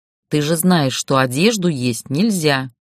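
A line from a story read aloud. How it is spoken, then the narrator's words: Stern. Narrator (Russian): сказала грозно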